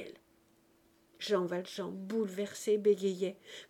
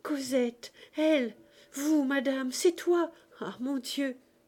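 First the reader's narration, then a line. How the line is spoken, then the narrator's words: Exclaiming. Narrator (French): il s'écria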